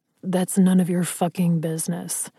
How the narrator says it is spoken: Ryder growled

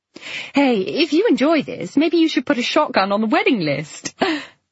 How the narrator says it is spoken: Flo said to Claire and gave her loud, braying laugh

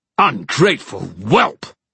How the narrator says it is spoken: barked the king, sneering at Kieran

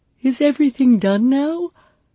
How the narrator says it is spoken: I asked over a yawn

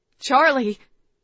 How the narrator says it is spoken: I choked out

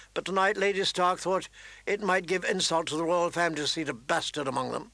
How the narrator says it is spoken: John answered in a flat voice

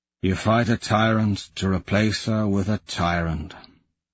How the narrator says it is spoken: he says wearily

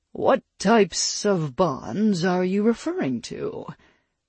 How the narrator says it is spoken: The djinn practically purred, knowing he had the Great Fae exactly where she didn't want to be

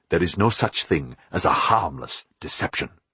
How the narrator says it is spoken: Philip said coldly

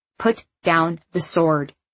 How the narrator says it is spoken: he said in an uncharacteristically stern tone

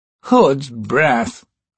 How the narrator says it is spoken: Murillo groaned

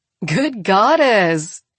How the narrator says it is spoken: she says and laughs

